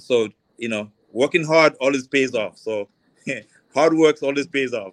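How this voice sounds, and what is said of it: Slight accent. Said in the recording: “I detect a little accent there”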